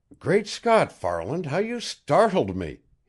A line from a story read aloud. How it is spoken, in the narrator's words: he exclaimed